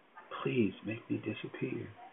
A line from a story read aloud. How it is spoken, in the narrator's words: she whispered into the palm of her hand